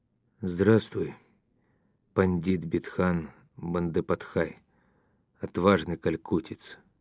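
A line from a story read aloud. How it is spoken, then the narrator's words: Quiet. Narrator (Russian): тихо сказал Ермаков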